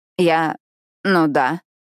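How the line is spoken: Stammering. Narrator (Russian): заикаюсь я

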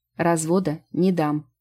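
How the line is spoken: Fairy, stern declaration. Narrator (Russian): строго заявила фея

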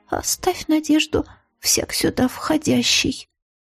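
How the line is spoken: Trembling voice reading aloud. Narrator (Russian): Дрожащим голосом зачитала подруга

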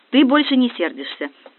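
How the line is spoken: Delighted. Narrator (Russian): обрадовалась я

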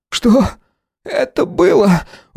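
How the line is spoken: Breathed out. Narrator (Russian): выдохнул Харрис

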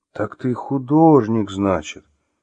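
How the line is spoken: Muttered. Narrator (Russian): пробормотал Артем

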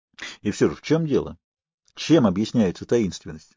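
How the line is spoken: Plain. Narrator (Russian): спросил Сэмпсон

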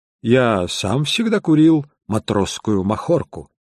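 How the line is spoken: Plain. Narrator (Russian): ответил я

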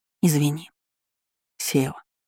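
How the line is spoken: Quiet, hoarse, sniffling. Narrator (Russian): Все еще шмыгая носом, Севара произнесла тихо и немного хрипло

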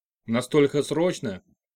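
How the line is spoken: Displeased. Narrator (Russian): Недовольным тоном осведомился директор

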